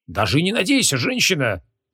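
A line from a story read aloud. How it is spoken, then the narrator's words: Indignant yell. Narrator (Russian): возмущенно завопил маг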